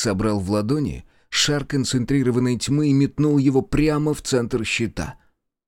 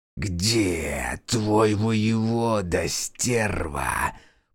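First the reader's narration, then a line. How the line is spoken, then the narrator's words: Menacing hiss. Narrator (Russian): прошипела Химера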